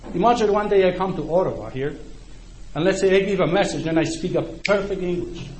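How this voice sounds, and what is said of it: Speaks English with a foreign accent. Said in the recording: “You know that I speak in a accent, right?”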